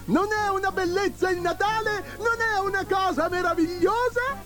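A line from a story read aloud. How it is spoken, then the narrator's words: Joyful shouting. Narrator (Italian): Babbo Natale … gridando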